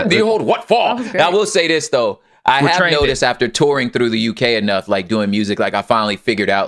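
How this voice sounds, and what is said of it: Usual voice. Nothing is said of it.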